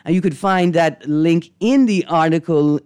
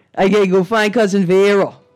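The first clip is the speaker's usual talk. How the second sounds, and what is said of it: Convincing put-on regional accent. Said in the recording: “I noticed where you got the accent down. ... You got the accent down.”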